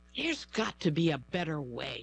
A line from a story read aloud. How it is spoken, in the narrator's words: Stephanie Payo sighed, frustrated after another long day at work